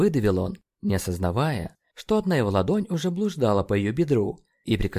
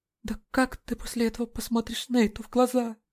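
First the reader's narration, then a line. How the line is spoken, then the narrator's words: Trembling question. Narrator (Russian): Дрожащим голосом спросила она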